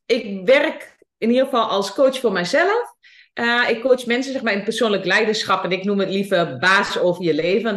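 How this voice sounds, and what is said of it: Twente regional Dutch accent. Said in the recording (Dutch): “mijn accent, mijn Twentse accent ... dat is dus het accent”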